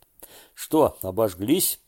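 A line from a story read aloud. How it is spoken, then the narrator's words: Grandfather laughing. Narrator (Russian): смеялся дедушка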